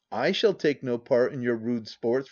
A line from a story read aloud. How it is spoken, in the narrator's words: replied the lady, coldly